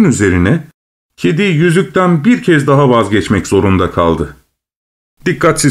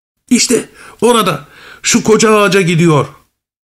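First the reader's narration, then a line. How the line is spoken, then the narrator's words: Cat shouting. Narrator (Turkish): diye bağırdı kedi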